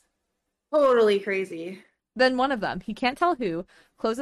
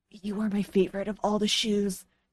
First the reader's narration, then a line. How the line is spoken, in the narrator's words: he whispers